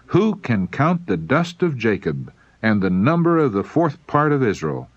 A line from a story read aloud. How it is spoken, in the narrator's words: he exclaimed